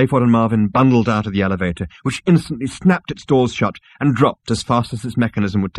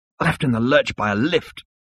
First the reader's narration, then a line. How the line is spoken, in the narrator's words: muttered Seyfried, who was feeling at his least jaunty